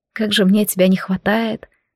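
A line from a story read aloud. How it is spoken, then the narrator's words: Sighing. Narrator (Russian): вздохнула я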